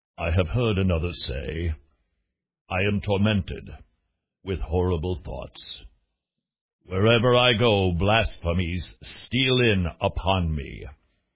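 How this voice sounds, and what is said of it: Warm, authoritative British-sounding preacher voice. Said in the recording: “Sounds sort of British, and yet sounds sort of authoritative. And yet warm and gentle all at the same time ... my impression of Charles Haddon Spurgeon”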